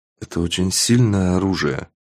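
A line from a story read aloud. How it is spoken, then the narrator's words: Whispering. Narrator (Russian): прошептал я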